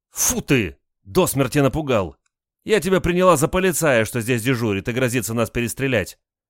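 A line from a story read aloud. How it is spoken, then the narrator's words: Startled exclamation. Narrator (Russian): воскликнула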